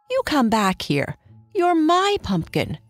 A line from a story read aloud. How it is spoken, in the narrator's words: cried Antony